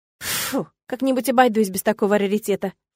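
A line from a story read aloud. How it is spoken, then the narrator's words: Scornful snort. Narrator (Russian): фыркнула я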